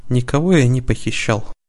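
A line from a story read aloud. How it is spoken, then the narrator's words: Tired. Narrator (Russian): устало сказал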